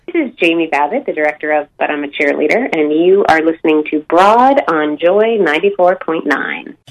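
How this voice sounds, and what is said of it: American English accent. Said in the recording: “we say in American English ... you say it in your American tongue. ... Can I say it with an American accent?”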